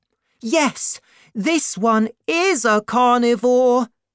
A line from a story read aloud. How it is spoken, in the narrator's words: Tau shouted back